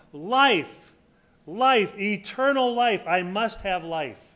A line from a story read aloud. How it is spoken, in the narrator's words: as he was running, he cried out